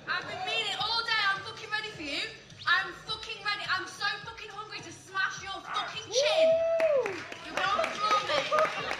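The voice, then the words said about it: Speaks with a noticeable accent. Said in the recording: “I like this accent.”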